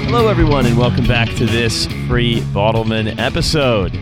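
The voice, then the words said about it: Announcer-style radio voice. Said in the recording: “nervously doing radio voice ... Your radio voice sounds great”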